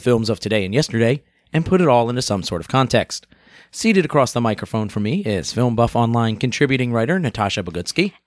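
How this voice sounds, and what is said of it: Congested, stuffy voice. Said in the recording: “I'm still fighting off a little bit of a congestion thing ... You can probably hear it in my voice, right? ... It's pretty grody.”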